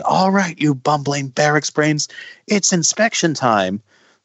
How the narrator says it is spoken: he's, like, screaming

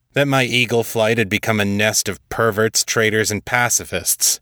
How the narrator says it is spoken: Pierce growled

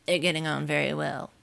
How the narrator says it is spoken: he said in a choking voice

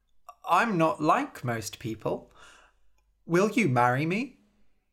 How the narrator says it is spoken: The beautiful man laughed

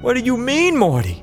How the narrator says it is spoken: Barry, terrified and on the verge of tears, screeched

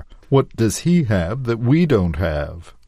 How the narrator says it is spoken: Eric said

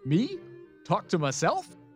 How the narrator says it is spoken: laughed, not very convincingly

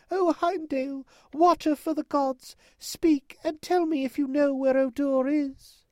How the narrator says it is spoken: cried

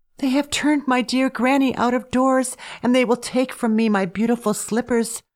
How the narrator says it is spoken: sobbed

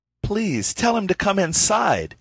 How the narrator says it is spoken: he exclaimed with real concern

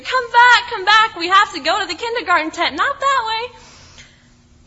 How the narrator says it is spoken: screaming

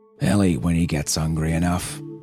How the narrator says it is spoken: he growled

